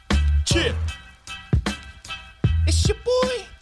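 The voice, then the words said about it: Imitates another person's voice, poorly. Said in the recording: “I tried to do JayZ impersonation. ... That was not it. That was not it.”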